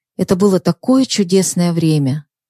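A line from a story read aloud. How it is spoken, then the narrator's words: Quiet, with a sigh. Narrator (Russian): вздохнув, тихо произнесла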